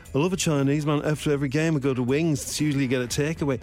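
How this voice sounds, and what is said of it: Put-on Birmingham accent. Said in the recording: “he's Birmingham, isn't he? ... So I don't know what accent I'm doing there.”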